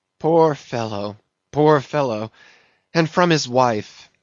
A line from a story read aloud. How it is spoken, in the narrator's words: sighed Mayhew